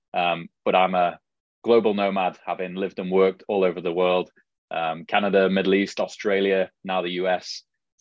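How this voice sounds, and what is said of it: Mild British Liverpool accent. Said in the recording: “from the UK and you know, I can certainly hear the accent ... As you can tell from my accent ... originally from Liverpool, England ... my accent is definitely not a hardcore Scouse accent”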